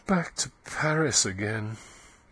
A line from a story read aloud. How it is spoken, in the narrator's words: she murmured in a voice that was nearly a sigh